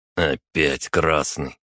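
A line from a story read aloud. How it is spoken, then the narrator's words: Grumbling. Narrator (Russian): проворчал таксист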